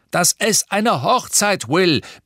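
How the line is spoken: Father shouting from another room. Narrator (German): brüllte Papa aus dem Badezimmer

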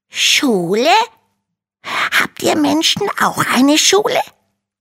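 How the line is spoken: Little dragon's astonished hiss. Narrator (German): faucht der kleine Drache erstaunt

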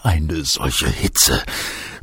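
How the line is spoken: Groaned. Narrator (German): stöhnte er

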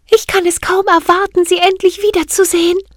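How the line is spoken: Calling out. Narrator (German): rief

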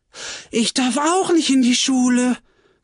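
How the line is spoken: Relieved, glad calling out. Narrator (German): rief Tulipa, froh, dass es ihr nicht allein so erging

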